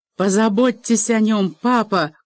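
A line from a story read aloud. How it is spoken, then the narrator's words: Shouting. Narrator (Russian): крикнула она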